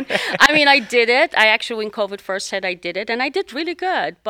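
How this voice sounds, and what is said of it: Speaks with a noticeable accent. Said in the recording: “with this accent, it's very hard to sell on the phone”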